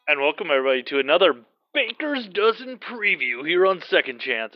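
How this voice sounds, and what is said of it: Announcer-style radio voice. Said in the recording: “I don't know why I'm talking in that radio voice because I don't think I have one”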